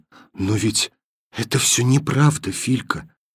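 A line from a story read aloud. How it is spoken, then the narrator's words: Whispered. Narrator (Russian): сказала она шепотом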